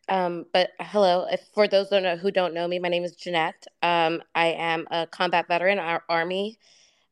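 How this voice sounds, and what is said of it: Low, sick-sounding voice. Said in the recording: “my voice is a little low. I'm sick.”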